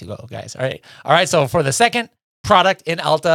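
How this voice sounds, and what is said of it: Usual voice. Nothing is said of it.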